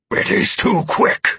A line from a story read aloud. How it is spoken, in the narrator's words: Amaranth snarled with frustration in my mind